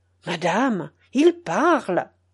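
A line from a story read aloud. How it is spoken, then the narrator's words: Exclaimed. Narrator (French): s'écria Frémont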